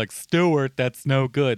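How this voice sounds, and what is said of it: Imitates another person's voice. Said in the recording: “a good Lovecraft impression”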